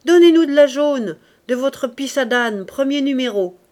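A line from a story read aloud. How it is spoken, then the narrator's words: Shouted. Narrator (French): cria-t-il au père Colombe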